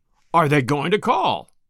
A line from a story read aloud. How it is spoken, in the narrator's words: repeated Druce, in the same hard tone of voice